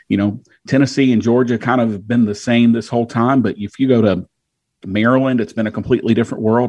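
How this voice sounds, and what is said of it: Southern US accent. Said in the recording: “he's in the South based on that wonderful accent there”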